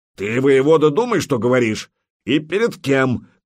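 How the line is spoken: Shout. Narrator (Russian): крикнул Путята

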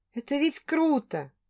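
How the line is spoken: Whisper. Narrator (Russian): прошептала

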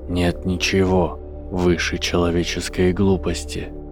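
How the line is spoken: Whisper from the void. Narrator (Russian): прошептал голос из пустоты

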